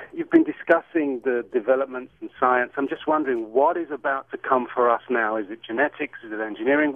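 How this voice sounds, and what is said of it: British accent. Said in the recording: “I love your accent... it's not an L.A. accent... It is from the UK.”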